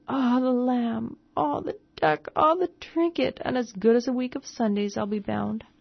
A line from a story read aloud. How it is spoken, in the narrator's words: she cooed